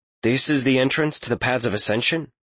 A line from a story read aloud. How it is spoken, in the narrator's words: Talion asked